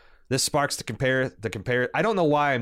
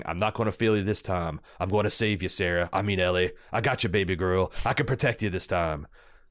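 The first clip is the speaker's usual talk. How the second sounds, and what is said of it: Impression of Joel from the video game. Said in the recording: “I'm doing the Joel from the video game impersonation, because I don't have a good Pedro. Not that I have a good Joel”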